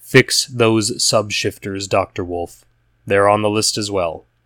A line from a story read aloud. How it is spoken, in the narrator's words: Beta informed coldly